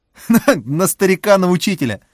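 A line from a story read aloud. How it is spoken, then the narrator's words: Cheerful chuckle. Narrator (Russian): жизнерадостно хохотнул Борис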